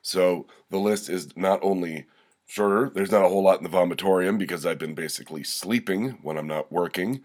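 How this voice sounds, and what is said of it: Congested head-cold voice. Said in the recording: “You can probably hear it in my voice. I've got a bit of a head cold.”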